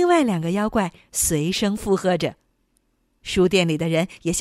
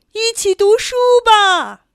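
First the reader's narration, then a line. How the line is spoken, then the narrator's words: Loud, ringing voice. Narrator (Chinese): 声音响彻整个书店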